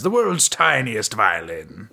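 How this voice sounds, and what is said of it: Imitated character voice. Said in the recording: “That was a good impression.”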